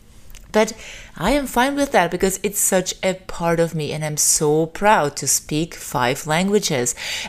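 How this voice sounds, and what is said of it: Non-native English accent, Austrian or Slavic. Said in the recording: “Also about my accent ... I don't even know what accent I have. Is it Austrian? Is it Slavic? Sometimes yes, sometimes no”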